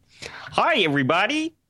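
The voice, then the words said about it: Kermit the Frog character voice. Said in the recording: “my Kermit the Frog impression ... gotta work on that a little bit ... It's close”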